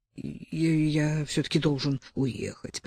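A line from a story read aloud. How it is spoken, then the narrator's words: Increasingly gloomy male mutter. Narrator (Russian): пробормотал он мрачнее с каждой секундой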